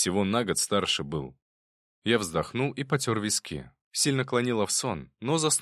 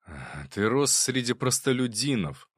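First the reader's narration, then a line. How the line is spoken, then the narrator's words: Sighing. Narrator (Russian): вздохнув, сказал Любомир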